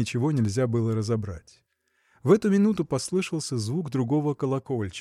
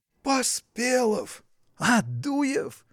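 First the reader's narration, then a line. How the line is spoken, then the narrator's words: Exclaiming in unison. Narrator (Russian): Воскликнули они враз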